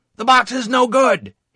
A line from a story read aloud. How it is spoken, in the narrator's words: yelled